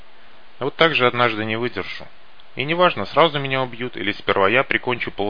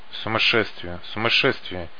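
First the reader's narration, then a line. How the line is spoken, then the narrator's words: Whispered. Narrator (Russian): шептал Никита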